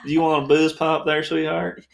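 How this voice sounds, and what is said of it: Fake Southern accent. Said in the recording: “one guy who had a fake accent ... He sounded like me doing a Southern accent”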